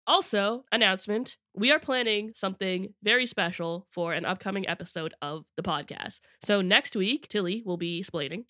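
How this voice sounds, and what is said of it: Congested voice from a cold. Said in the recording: “I have a cold... I am missing some very important consonants in my name. ... If my voice starts to sound a little funky throughout this episode, it's just, I'm losing my voice.”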